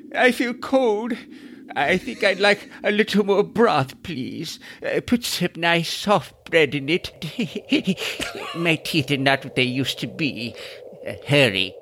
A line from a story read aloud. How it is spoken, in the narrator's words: Shivering, the grimacing graybeard whimpers